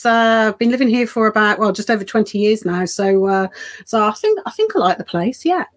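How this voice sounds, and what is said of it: Slight Birmingham accent. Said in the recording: “you might be able to tell the twings in my accent. I am actually from Birmingham originally”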